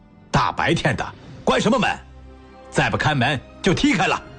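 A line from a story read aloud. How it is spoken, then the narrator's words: Angry roar. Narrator (Chinese): 满面怒容地吼叫着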